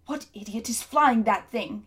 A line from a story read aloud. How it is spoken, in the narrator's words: he shouted